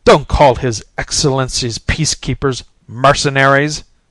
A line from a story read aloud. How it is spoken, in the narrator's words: snapped the mercenary